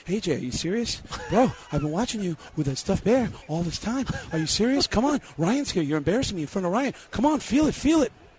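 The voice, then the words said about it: Breathless Mark Wahlberg impression. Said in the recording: “worst Mark Wahlberg impression of all time ... I call it out of breath Mark Wahlberg ... That was out of breath, Mark. That's the worst.”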